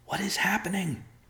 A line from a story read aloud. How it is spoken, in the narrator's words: an officer whispered